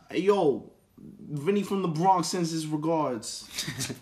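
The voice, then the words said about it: Put-on New York accent. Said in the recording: “Then number three is New York ... That's the accent they're talking about.”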